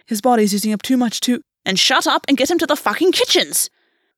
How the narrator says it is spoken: Golvi snapped

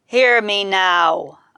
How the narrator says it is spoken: I bellowed

